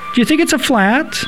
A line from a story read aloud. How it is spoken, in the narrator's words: my mother chirped helpfully